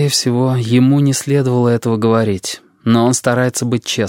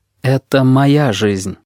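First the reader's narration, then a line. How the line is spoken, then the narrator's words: Plain. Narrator (Russian): говорит сфинкс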